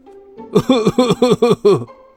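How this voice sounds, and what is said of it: Old, dusty, aged-sounding laughing voice. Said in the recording (Chinese): “一个像是落满了灰尘的苍老的声音”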